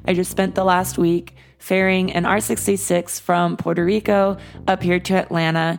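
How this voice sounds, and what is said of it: Slightly hoarse voice. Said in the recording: “apologize for my voice. I'm a little hoarse”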